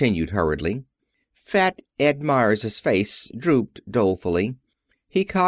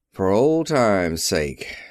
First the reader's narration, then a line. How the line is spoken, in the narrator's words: he repeated with tremulous pathos, and heaved a gusty sigh